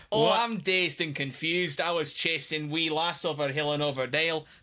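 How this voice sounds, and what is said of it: Bad put-on Scottish accent. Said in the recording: “I've done worse Scottish accents. That wasn't awful. It was bad, but it wasn't awful.”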